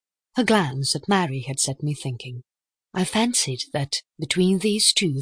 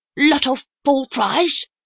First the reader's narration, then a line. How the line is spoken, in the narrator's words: grunted Miss Howard